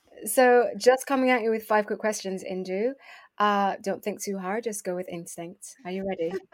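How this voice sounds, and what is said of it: Polished radio presenter voice. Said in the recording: “I've even given you radio voice.”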